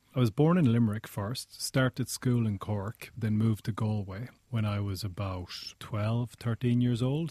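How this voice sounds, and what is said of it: Unusual mixed Irish accent. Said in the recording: “I've always had a slightly unusual accent ... I ended up with kind of an amalgamation of those accents ... I actually sound quite a lot different to a lot of Irish people”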